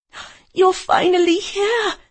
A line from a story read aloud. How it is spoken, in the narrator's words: I cried